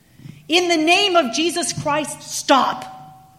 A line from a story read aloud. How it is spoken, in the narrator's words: this little tiny man ... loudly and said